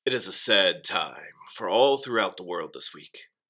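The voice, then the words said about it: Put-on performance voice. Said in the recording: “put on a voice”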